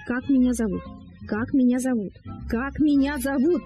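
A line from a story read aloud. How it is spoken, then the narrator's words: Shrill anxious bird cry. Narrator (Russian): прокричал скворец пронзительно и тревожно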